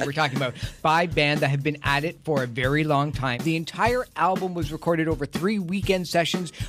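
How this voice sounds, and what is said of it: Usual voice. Nothing is said of it.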